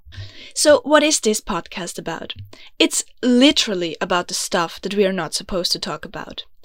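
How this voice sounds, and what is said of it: Austrian German accent in English. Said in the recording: “I'm from Vienna, beautiful, grumpy Austria, which you might have guessed, because I know I have an accent... English is not my mother tongue. It's actually German. No. Actually, it's Austrian.”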